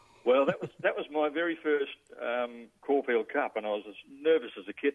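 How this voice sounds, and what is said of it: Usual voice. Nothing is said of it.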